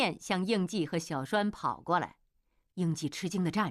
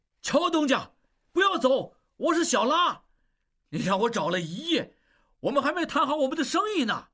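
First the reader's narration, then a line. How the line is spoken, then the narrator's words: Excited shout. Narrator (Chinese): 小拉斯普汀兴奋地大喊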